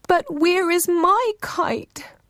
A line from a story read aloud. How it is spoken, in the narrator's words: Ururangi cried